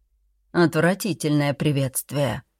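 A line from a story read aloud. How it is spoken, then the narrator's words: Curt grumble. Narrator (Russian): буркнула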